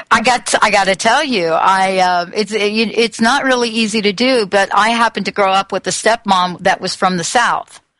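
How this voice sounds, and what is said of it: New Jersey accent with Southern drawl. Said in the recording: “you take a New York, New Jersey accent, you put two cups of Southern drawl in it, and you get what you're hearing right now”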